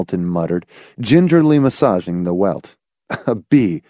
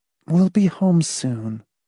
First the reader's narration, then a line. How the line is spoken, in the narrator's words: Marcia said soothingly